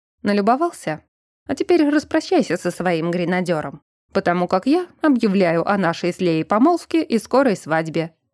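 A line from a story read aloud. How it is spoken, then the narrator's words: Calm, matter-of-fact tone. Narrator (Russian): спокойным и будничным тоном произнес ректор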